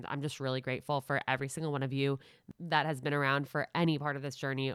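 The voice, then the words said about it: Nasal, congested voice. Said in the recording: “I'm a little more nasally than usual right now. I have a little bit of a cold”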